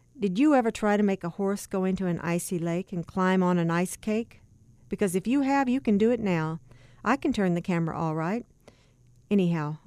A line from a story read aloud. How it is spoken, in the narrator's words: added firmly